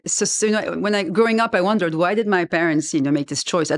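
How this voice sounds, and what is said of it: French-influenced accent. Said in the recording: “As you can hear from my accent, I was a raised French speaker”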